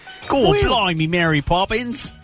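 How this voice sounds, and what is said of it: Put-on Cockney accent. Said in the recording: “With his ace Cockney accent.”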